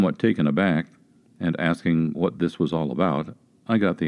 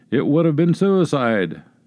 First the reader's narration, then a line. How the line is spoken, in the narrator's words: outburst were cries of